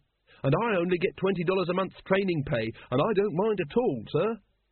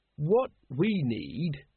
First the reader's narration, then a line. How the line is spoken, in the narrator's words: he said slowly